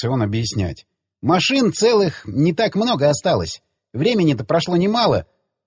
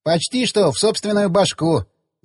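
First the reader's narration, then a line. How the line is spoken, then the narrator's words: Laughing. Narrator (Russian): засмеялся он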